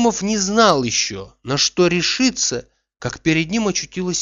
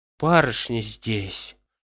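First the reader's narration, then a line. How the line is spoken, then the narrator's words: Whispered. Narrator (Russian): шепотом отвечала она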